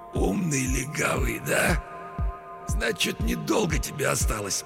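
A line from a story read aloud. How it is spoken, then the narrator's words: Hoarse wheeze. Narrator (Russian): Человек с разбитым лицом прохрипел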